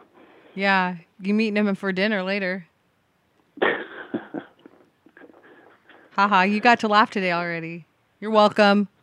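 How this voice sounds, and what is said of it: American accent. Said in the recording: “You sound American ... It's your accent.”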